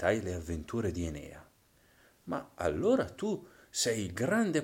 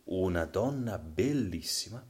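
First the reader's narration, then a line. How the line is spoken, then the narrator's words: Plain. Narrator (Italian): mi rispose Virgilio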